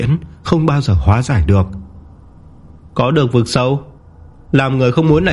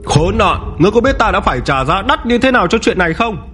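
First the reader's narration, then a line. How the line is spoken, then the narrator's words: Ferocious roar. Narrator (Vietnamese): Tịch gầm lên dữ tợn, khí tức của tà thần chết người trở nên sôi sực cực độ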